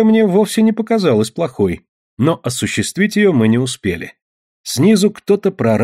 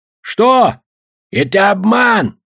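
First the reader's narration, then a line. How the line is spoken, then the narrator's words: Shouting. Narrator (Russian): прокричал дядюшка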